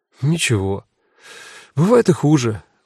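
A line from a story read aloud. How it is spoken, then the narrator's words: Sighing. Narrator (Russian): вздохнула Люся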